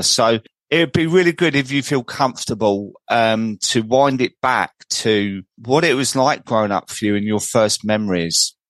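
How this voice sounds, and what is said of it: South London English accent. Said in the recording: “it's nice to have someone on with a similar kind of accent ... Cockney podcast ... I'm actually not Cockney ... I come from Croydon ... the old accent”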